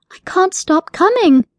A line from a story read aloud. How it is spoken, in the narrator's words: cried out